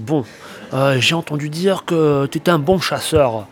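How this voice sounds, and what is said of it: Imperfect southern French accent. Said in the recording (French): “Avec l'accent du sud ... l'accent du sud que je sais pas très bien faire”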